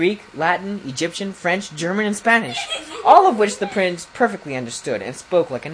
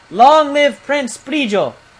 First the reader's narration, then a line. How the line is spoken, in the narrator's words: each knight came alive with his horse and lifted his sword and shouted